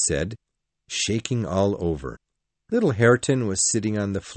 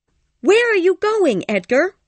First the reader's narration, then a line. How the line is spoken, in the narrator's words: cried Kathy